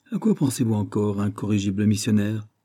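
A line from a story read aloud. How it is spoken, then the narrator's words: Plain. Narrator (French): demanda-t-il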